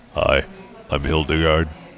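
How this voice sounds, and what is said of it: Very deep character voice. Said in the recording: “your voice is so deep”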